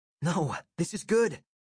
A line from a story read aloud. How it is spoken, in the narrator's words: exclaimed